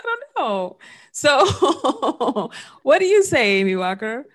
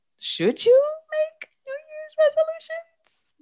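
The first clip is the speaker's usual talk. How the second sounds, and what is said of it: High-pitched questioning voice. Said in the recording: “Does my voice need to be that high when I ask that question?”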